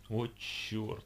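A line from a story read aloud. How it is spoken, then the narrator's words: Stunned strained utterance. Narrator (Russian): Единственное, что смог выдавить из себя ошеломленный Бекас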